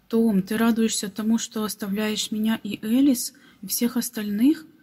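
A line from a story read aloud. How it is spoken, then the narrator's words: Plain. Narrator (Russian): спросил он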